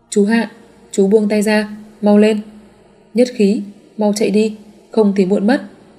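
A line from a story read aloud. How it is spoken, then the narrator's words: Hurried cry. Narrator (Vietnamese): vội kêu lên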